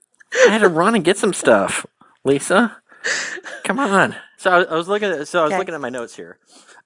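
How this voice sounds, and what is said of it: Out of breath. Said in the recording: “Why are you out of breath?”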